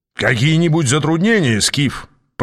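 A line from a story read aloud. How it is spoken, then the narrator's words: Booming voice. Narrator (Russian): прогремел знакомый голос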